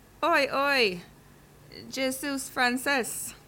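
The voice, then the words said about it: French spoken with English accent. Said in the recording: “I don't think you are French. Your accent sounds too English.”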